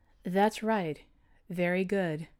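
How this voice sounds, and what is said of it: Soothing, mesmerizing voice. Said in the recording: “in her mesmerizing voice ... The owl's soothing tone”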